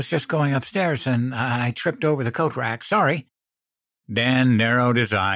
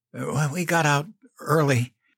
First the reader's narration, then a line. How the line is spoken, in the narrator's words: I stammered